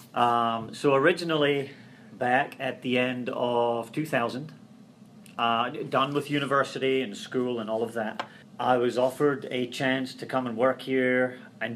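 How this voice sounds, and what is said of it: Scottish accent. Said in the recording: “you seem to have a different accent than most people in the greater Cincinnati region ... I came here from uh, Scotland”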